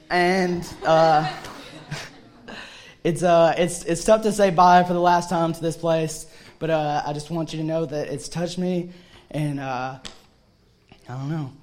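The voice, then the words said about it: Teary, choked-up voice. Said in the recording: “I don't wanna cry. I'm just getting teary.”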